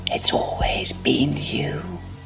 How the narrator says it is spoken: he whispers

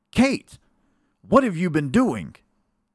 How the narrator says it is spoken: Frederick cried out

